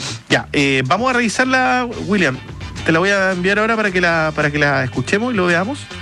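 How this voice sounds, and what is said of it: Usual voice. Nothing is said of it.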